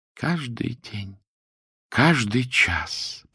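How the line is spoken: Reverent near-whisper, woman. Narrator (Russian): почти шептала она благоговейно

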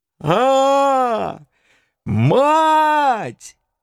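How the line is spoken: Old man's terrible howl. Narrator (Russian): страшно взвыл дед

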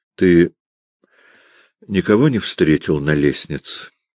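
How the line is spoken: Forced calm question. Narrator (Russian): спросил он, стараясь говорить спокойно

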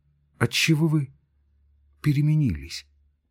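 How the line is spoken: Quiet. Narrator (Russian): сказала она тихо

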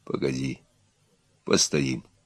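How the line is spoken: Hoarse sunken voice. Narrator (Russian): осевшим голосом сказал Егор

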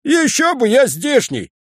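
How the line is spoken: Wild laughing woman. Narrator (Russian): Женщина смеялась, как сумасшедшая

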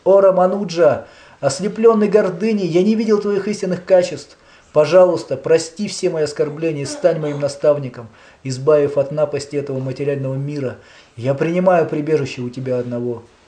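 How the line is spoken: Exclamation. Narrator (Russian): воскликнув

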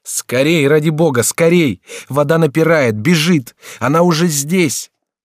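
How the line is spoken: Shout. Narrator (Russian): Генрих кричал им

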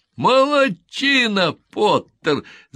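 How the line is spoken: Shouting. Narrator (Russian): закричал Фламмер

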